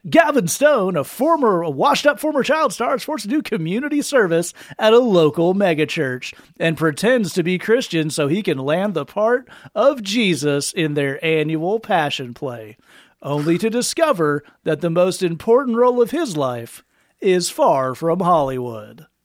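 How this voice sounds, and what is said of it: Movie trailer narrator voice. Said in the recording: “I should do it in the movie show ... you meant the trailer voice ... Yeah, the voice.”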